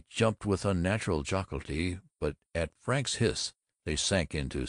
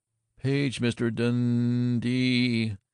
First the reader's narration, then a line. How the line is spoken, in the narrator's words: intoned Eddie Swanson